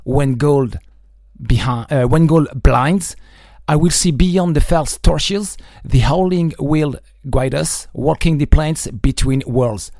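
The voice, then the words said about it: Non-native accent in English. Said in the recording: “Sorry for my accent, but I will do my best.”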